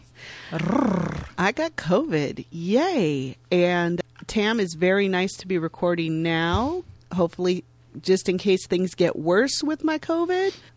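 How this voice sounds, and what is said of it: Husky, hoarse voice. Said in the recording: “my voice sounds a little different today ... You turned on the husky ... my beautiful husky radio voice”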